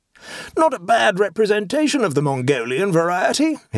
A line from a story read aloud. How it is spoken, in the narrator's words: he exclaimed